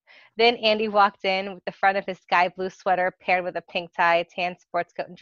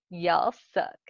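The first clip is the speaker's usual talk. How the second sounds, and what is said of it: Put-on Southern US accent. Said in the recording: “He then spoke in a southern accent.”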